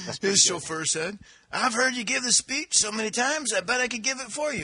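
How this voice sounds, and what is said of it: Usual voice. Nothing is said of it.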